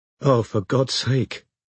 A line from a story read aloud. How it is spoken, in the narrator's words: breathed Robin